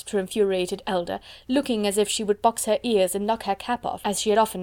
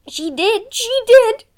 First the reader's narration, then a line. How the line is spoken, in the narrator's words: she cried